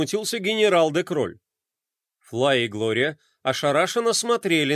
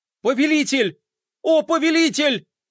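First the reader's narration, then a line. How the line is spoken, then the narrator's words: Joyful yelling. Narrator (Russian): радостно вопил Мелкотрон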